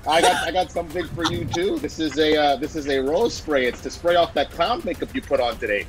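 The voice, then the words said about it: Speaks in an unusual put-on accent. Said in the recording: “What is that accent?”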